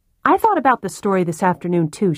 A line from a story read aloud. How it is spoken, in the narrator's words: she said